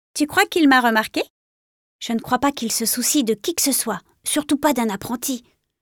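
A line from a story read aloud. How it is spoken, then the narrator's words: Whispered. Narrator (French): chuchota son camarade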